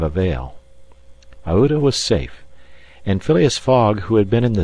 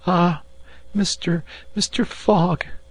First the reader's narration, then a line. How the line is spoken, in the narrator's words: cried she, covering them with tears